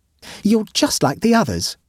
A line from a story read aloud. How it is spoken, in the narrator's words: said Blenkinthrope sadly